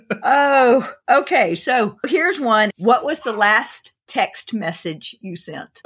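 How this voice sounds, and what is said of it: Rough, congested voice. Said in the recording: “my voice sounds bad. Apparently, I have a little bit of cough and sinus.”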